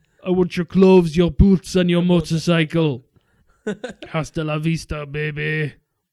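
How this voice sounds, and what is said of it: Arnold Schwarzenegger impression. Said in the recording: “do my Arnie impression”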